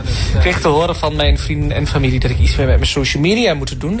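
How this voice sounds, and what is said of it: Strong regional Dutch accent. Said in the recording (Dutch): “aan dat accent snap ik meteen ... het oorste is weer gerepresent ... dat accent. Dat is wel heel heftig.”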